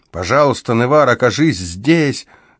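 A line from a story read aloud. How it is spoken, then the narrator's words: Desperate shout. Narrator (Russian): закричал он, и в его голосе слышалось такое отчаяние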